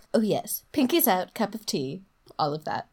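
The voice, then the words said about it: Terrible put-on posh accent. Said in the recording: “Don't judge my accents. I know they're terrible. That wasn't really an accent of anything anyway.”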